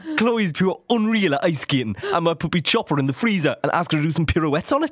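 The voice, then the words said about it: Put-on Newcastle Geordie accent. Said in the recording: “I've been trying to work on my Newcastle accent, and all I can do is just think about Geordie Shore”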